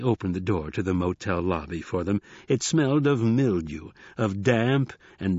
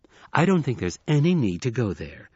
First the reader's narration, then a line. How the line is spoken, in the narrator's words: said the woman smoothly